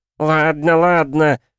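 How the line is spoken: Howling. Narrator (Russian): взвыл тот

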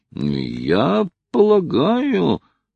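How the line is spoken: Conflicted mumble. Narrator (Russian): промямлил Хайрем, раздираемый двумя чувствами

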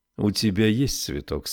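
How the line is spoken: Tender, gentle. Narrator (Russian): сказал ласково Стивенс

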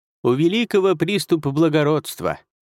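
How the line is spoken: Mocking. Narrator (Russian): насмешливо сказал наставник Угвэй

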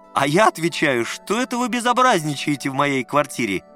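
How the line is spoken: Laughing heartily. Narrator (Russian): заливался хохотом Лукашин

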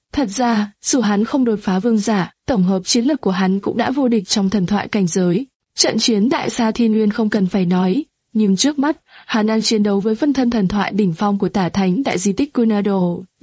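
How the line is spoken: Sad voice. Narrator (Vietnamese): Minh Không Đao Vương với giọng buồn bã nói

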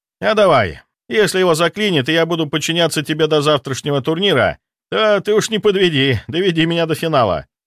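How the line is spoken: Forced chuckle. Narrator (Russian): хохотнул, хотя ему точно не было весело

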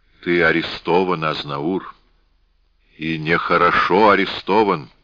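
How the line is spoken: Gloomy repetition. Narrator (Russian): мрачно повторил Баака

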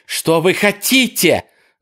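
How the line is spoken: Hopeful shout. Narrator (Russian): закричала в надежде, что он ее услышит

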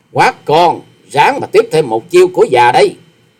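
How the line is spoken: Sudden loud shout. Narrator (Vietnamese): Bất thần bà ta giọng quát to nói

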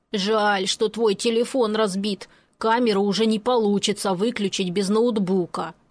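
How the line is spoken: Grumbling mutter. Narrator (Russian): пробурчал он

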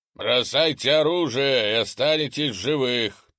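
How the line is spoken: Trumpeting commander's shout. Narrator (Russian): трубным голосом кричал вражеский командир

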